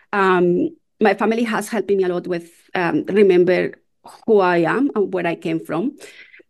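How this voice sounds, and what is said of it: Strong non-native English accent. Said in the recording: “I have a strong accent that I don't want to lose it”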